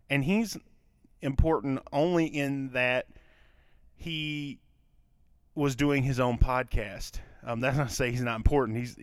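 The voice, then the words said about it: Southern US Kentucky accent. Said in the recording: “I'm from Kentucky, for those of you that do not know or couldn't tell from my accent that I live in a southern state”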